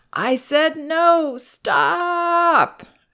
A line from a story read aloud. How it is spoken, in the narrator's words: whining and crying